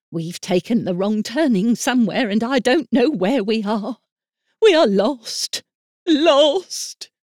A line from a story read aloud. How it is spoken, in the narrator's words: gave a great cry and said